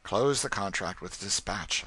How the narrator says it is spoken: I said

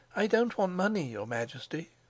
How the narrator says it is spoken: she murmured

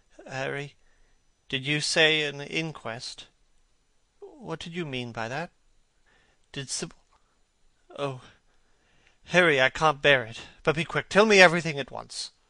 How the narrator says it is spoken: he murmured in a stifled voice

